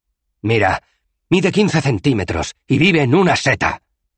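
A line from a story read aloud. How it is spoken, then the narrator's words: Roaring. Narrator (Spanish): rugió Rinswin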